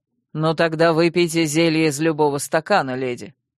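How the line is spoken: Cold command, king. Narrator (Russian): вдруг холодно приказал король

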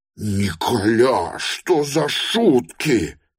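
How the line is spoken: Groaning in a strange voice. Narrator (Russian): простонал он машинально, не своим голосом

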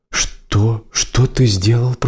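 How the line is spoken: Horrified whisper. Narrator (Russian): прошептал он в ужасе

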